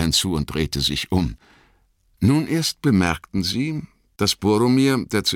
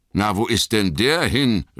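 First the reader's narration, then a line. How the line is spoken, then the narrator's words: Worried call. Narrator (German): rief Sam und schaute besorgt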